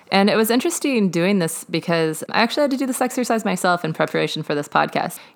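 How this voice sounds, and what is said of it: Southern American accent. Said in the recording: “my sweet Southern accent”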